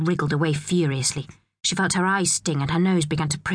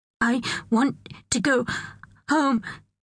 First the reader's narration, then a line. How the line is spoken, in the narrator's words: gasped